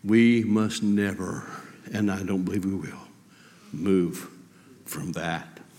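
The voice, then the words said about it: Emotional, moved speaking voice. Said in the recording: “I got a little emotional there.”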